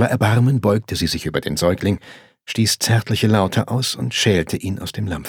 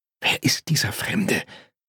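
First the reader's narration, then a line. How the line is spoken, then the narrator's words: Hissing. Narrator (German): zischte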